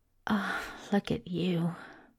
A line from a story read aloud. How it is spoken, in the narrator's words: Crowley murmured